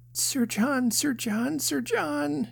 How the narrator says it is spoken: she cried

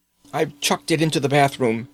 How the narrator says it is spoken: he gasped

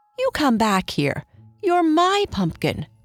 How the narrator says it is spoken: cried Antony

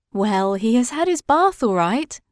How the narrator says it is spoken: said Mother with a laugh

